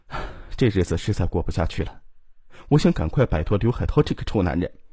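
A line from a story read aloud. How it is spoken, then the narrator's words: Sighing. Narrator (Chinese): 李东营叹了口气说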